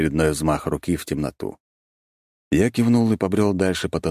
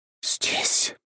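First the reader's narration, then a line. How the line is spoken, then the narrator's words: Ghostly whisper. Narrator (Russian): прошептала призрак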